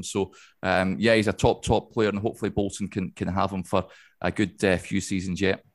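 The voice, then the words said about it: Non-local accent, not from Bolton. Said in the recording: “we can hear by your accent, for those that don't know, that you're not a Bolton native”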